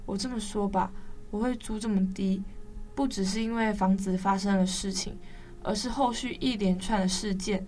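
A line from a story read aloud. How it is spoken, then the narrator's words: Sighing. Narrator (Chinese): 屋主叹了口气说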